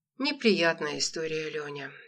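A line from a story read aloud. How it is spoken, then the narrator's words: Sighing jeweler. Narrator (Russian): ювелир вздохнул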